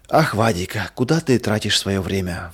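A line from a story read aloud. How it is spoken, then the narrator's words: Sighing mother. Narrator (Russian): вздохнула мама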